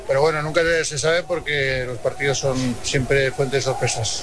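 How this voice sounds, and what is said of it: Strong Aragonese (maño) accent. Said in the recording (Spanish): “me ha salido acento mañito... Pero mucho, bastante.”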